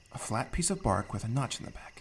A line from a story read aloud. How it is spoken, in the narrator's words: Thimble muttered to himself, recounting Nona's instructions